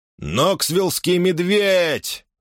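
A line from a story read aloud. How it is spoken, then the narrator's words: Shouted out. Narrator (Russian): выкрикнул Хэрри конь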